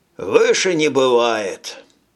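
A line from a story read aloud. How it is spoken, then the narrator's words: Sigh. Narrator (Russian): Абдайк вздохнул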